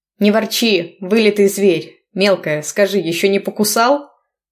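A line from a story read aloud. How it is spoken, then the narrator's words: Group laughing. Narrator (Russian): рассмеялись они все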